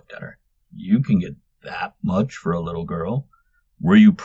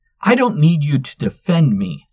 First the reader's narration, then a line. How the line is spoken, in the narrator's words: Luna spat the words at the wizard